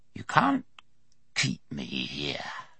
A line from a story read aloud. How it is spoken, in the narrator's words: the walker hissed